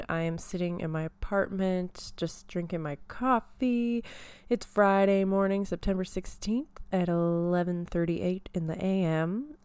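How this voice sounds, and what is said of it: Polished radio announcer voice. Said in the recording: “I'm just practicing my radio voice”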